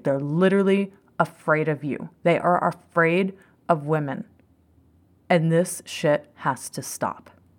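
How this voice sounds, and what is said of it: Angry, fired-up voice. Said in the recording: “I'm sure you hear it in my voice. ... I am fired up as fuck about it.”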